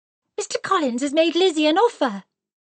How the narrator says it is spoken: exclaimed Kitty

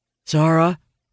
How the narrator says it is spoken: Owen says nervously

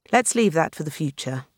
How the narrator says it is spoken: Bowles said dryly

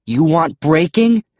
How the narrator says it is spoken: I yelled at the Alivant

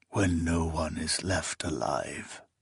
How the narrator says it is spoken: he mumbled afterward

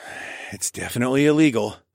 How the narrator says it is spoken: I sighed

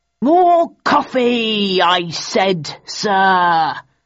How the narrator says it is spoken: roared Phelps to the waiter, who had given him tea by mistake

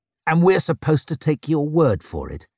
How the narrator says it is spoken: sneered Leo

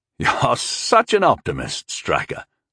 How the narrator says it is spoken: Walven chuckled

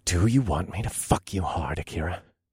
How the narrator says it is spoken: I hissed

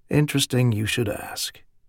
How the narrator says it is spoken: he repeated in a softer voice

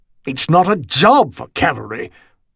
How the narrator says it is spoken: Augustus Osborne snapped

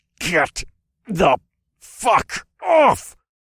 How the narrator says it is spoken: I snarled

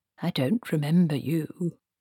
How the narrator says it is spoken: said Q-Tangle

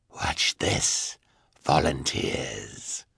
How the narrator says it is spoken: said the sinister man in his hoarse voice

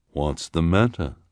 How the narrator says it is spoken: asked the woman in her deep voice

